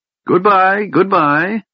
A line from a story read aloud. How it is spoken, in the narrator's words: cheerfully